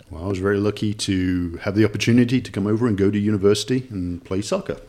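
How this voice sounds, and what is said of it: English Nottingham accent. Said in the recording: “my accent, of course, is from England, Nottingham, England ... my accent is gradually changing”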